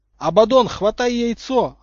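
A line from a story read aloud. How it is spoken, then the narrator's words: Yelling. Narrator (Russian): орал Поттер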